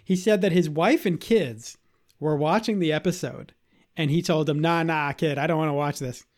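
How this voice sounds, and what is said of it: Boston accent. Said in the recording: “I'm doing the accent again ... the little ... from Southie's coming out”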